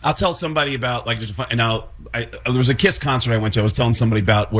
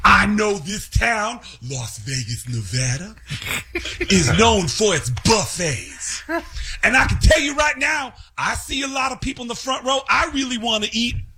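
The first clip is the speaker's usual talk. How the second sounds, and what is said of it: Imitates another person's voice. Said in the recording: “start doing the voices of people in the story ... I don't even realize I'm doing that voice”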